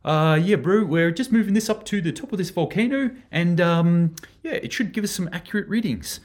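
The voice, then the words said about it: Poor put-on New Zealand accent. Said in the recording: “my shitty New Zealand accent”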